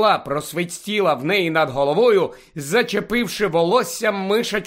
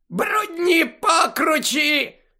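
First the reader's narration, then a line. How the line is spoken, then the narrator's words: Shrieked. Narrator (Ukrainian): заверещала Амбридж, затуляючи голову руками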